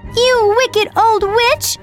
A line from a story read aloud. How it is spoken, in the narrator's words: cried Dorothy